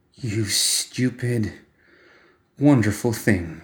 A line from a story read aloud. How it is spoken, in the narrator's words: murmured